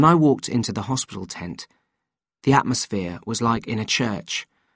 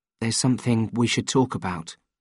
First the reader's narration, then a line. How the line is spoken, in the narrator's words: I said gently